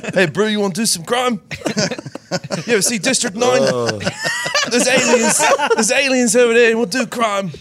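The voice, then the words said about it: Put-on South African accent. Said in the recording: “South African crime... with the accent... Hands down your best accent.”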